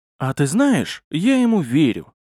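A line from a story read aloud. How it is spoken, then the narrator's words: Suddenly calm, archmage. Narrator (Russian): как-то вдруг спокойно сказал архимаг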